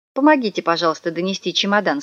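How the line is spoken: Plain. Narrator (Russian): сказала мама

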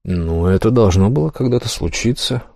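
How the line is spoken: Weary statement. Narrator (Russian): устало констатировал факт И

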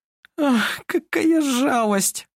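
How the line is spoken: Sobbing. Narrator (Russian): всхлипывала

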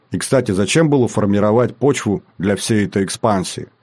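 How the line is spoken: Grunting reply. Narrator (Russian): Родман хмыкнул, но ответил

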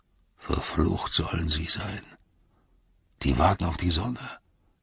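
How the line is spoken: Guard grumbling. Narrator (German): brummte einer der Bewacher

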